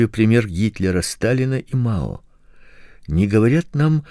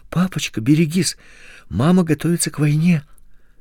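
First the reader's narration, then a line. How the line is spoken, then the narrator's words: Frightened. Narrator (Russian): испуганно сказал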